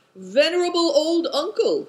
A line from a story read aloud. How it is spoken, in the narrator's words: he called out